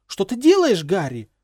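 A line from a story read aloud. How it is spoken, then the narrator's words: Indignant exclamation. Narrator (Russian): возмущенно воскликнула Гермиона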